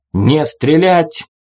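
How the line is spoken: Barked command. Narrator (Russian): гаркнул Джебедая

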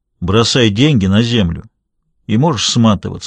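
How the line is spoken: Plain. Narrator (Russian): ответил Шульц

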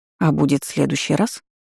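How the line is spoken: Quiet surprise. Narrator (Russian): негромко удивилась

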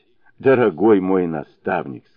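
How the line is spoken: Speaking through laughter. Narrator (Russian): сказал он наконец сквозь смех

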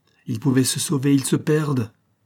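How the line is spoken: Exclaimed. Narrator (French): s'écria M

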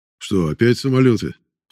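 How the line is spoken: Deep bass voice. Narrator (Russian): пробасил Садовский

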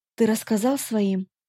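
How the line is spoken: Quiet question. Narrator (Russian): тихо спросила

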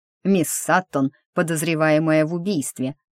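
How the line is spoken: Growled. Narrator (Russian): рыкнул сэр

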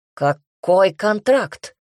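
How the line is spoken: Barked. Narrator (Russian): рявкнул Майрон

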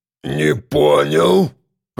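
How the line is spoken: Deep bass voice. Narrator (Russian): пробасил Митя

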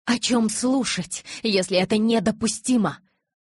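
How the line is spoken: Exclamation. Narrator (Russian): воскликнула Таня

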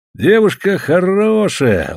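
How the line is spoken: Tender. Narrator (Russian): ласково говорил Бердышов

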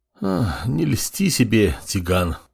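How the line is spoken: Sighing. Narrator (Russian): вздохнул глава

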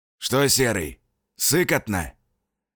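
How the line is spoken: Hoarse question from below. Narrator (Russian): Хрипло поинтересовались снизу, и я узнал голос Фарафонова

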